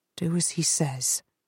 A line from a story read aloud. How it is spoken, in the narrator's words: he mutters